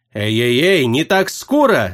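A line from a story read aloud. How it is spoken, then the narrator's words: Gnome yelling. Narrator (Russian): завопил гном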